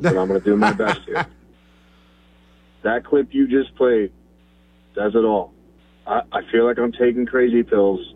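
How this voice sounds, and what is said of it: Hoarse, strained voice. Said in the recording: “I lost my voice screaming last night”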